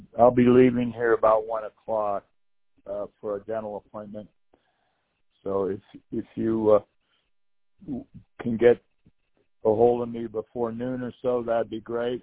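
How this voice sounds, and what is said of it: Hoarse voice. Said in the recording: “Excuse my hoarse voice.”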